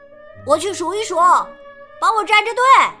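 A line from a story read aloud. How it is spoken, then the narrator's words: Shouting. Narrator (Chinese): 他对扎克喊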